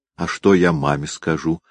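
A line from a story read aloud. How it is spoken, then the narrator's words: Plain. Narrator (Russian): спросила Настя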